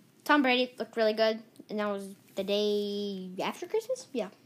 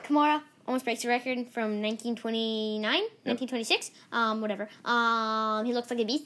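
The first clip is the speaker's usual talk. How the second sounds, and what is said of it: Fast-talking Ben Shapiro impression. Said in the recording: “I'm talking like Ben Shapiro... just get fast and furious”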